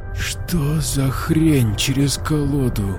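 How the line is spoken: Drawling, unrecognizably changed voice. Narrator (Russian): протянула она изменившимся до неузнаваемости голосом

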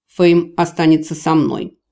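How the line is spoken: Stern warning. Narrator (Russian): предупредил лорд-канцлер строго

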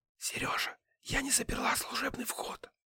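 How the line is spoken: Whispered. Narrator (Russian): шепнула

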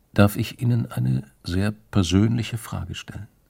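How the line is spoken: Quiet voice. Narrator (German): mit leiser Stimme gesagt

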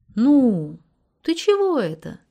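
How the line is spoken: Gentle question. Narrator (Russian): ласково спросил Анатолий

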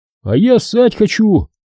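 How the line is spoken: Shouted. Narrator (Russian): выкрикнул Качан

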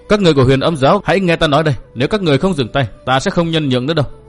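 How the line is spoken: Loud shout. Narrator (Vietnamese): Thiên Mẫn đã quát lớn

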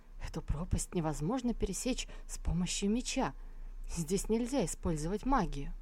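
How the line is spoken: Frightened mumble. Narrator (Russian): Послушник секты Сяояо, утирая выступивший от страха пот, пробормотал

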